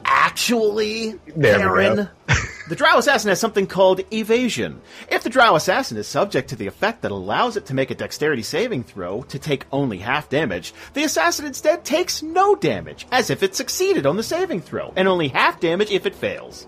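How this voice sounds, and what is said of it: Comic book nerd voice. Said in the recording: “do it in the comic book nerd voice ... That's very good. That's very good.”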